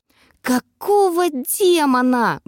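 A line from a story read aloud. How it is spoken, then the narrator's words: Shrill shriek. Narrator (Russian): взвизгнула я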